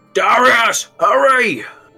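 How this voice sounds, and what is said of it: Yelling character line. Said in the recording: “he's yelling”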